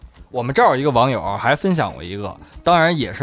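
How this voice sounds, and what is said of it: Usual voice. Nothing is said of it.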